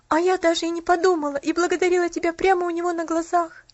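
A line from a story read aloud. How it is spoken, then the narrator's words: Sobbing. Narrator (Russian): всхлипнула Поллианна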